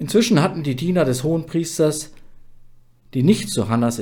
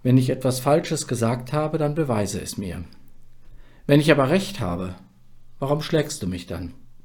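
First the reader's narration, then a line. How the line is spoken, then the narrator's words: Calm. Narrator (German): ruhig sagte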